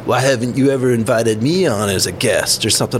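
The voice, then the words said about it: Bad impression of another person's voice. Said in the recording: “That's pretty bad impersonation”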